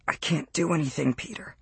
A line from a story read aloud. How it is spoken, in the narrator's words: he whispered